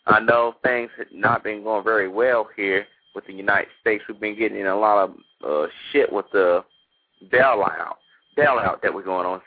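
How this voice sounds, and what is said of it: American country accent. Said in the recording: “Excuse my little country accent.”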